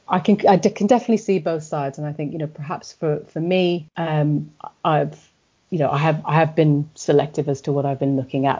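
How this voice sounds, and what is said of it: English accent. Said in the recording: “strange, twonky English accents”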